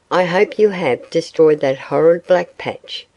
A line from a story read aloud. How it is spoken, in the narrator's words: she said